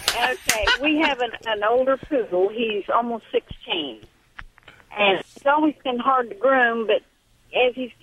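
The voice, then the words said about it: Slight Southern US accent. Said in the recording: “I'm detecting a little southern accent.”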